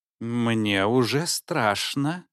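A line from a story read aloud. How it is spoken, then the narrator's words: Muttered. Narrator (Russian): пробормотал доктор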